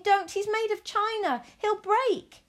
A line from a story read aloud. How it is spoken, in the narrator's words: cried Abilene